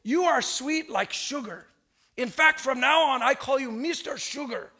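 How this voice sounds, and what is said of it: Imitated accent of another man. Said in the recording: “I'll try and give you his accent.”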